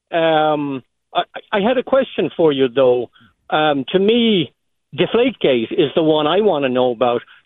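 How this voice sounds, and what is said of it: A distinctive regional accent. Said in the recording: “that accent was awesome”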